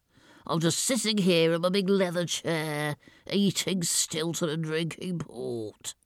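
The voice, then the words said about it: Bloviating, wet, audibly breathy character voice. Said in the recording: “I want to create a sort of bloviating sound ... I like to create the illusion that I'm about to run out of breath ... I can sort of breathe audibly ... It's a little bit wet as well. So you can tell I'm not in the peak of health.”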